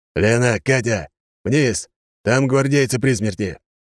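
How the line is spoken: Shouting. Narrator (Russian): выкрикнул Гаус

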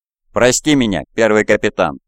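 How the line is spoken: Plain. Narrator (Russian): ответил он

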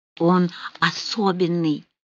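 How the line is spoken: Hoarse tender whisper. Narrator (Russian): охрипшим от нежности голосом прошептал Рауль

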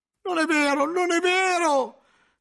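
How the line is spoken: Shout, cellarer. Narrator (Italian): gridò il cellario, come se quella difesa avesse ancora qualche efficacia

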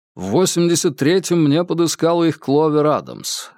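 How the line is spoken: Plain. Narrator (Russian): ответил Джеймс

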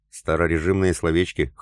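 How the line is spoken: Snorting. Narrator (Russian): хмыкнул тот

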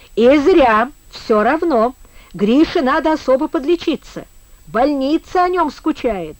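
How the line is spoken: Pleased laughing. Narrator (Russian): засмеялся Коля База, довольный шумным разговором

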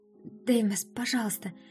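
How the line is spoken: Timid. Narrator (Russian): робко начала

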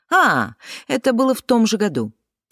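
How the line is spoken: Triumphant exclamation. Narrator (Russian): торжествующе воскликнула

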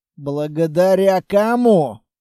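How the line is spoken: Grumbling. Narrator (Russian): проворчал Строгов

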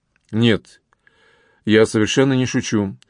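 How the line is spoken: Serious, calm officer. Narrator (Russian): все так же серьезно и спокойно ответил офицер

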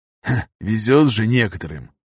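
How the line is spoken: Pleased snort. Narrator (Russian): довольно хмыкнул Михаил

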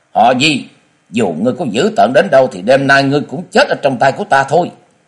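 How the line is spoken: Shout over thunder. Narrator (Vietnamese): tiếng của Liễu Như Yên cũng quát lên

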